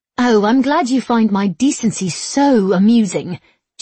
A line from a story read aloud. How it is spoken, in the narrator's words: she snapped